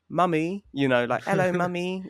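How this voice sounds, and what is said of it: High-pitched squeaky child voice. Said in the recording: “Like really high-pitched, squeaky voice.”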